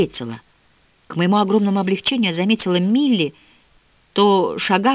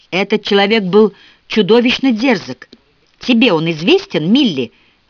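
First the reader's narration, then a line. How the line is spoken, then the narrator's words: Exclaiming. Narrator (Russian): воскликнула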